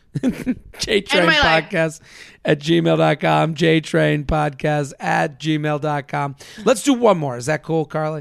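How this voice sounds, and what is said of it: Worn-out, hoarse voice. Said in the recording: “My voice is shot.”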